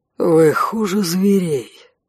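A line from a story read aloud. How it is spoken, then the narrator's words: Sighing. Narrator (Russian): вздохнул конт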